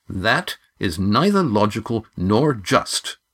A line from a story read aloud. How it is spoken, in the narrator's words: said Lindy firmly